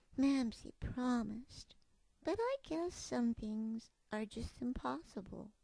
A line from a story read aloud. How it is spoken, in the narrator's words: Mopkin sleepily sighed and sadly whispered